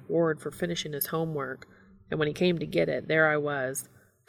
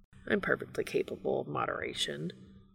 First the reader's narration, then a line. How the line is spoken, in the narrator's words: Castiel mutters unconvincingly